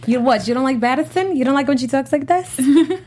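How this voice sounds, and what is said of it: Put-on Boston accent. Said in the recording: “I can do a really good Boston accent”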